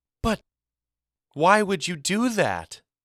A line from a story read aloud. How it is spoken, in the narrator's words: She exclaimed, scandalized by Mama's admission